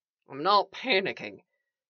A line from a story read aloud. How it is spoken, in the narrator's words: Eli mumbled, his face buried in his sleeve